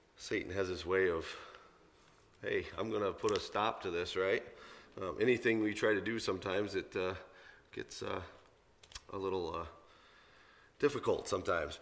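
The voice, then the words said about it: Hoarse, strained voice from a cold. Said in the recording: “I apologize for my voice this morning. I've been battling a little bit of a cold all week ... this morning I wake up and can hardly talk.”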